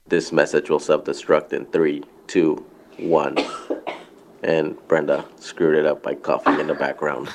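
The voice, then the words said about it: Deeper, bassier sick voice. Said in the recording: “My voice is getting deeper. ... He does have a little bass there to his voice all of a sudden. ... He's got COVID”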